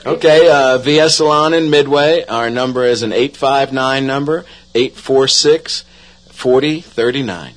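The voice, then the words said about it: New York accent. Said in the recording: “a New York accent”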